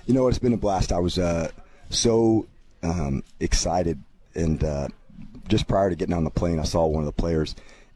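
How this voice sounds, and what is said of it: Worn, strained voice. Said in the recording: “excuse my voice a little bit. Extra teaching, extra classroom.”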